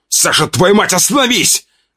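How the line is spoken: Shouting. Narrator (Russian): выкрикнул

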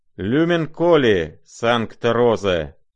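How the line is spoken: Loud calling out. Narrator (Russian): именуя громко

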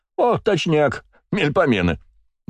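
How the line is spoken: Loud laughter. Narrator (Russian): захохотал Василий

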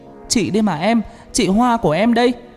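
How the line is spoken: Hurried loud shout. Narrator (Vietnamese): Hoa vội hét lớn

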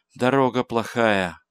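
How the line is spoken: Tired mutter. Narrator (Russian): пробормотал Гай устало

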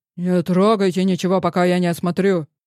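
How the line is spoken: Sharp bark. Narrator (Russian): рявкнул безопасник

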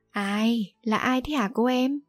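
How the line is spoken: Trembling, frightened. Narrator (Vietnamese): Tên kia run rẩy

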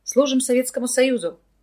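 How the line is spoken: Loud answer. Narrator (Russian): громко ответил за всех Вадим

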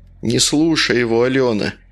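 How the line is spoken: Heavy sigh. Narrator (Russian): Игорь тяжело вздохнул

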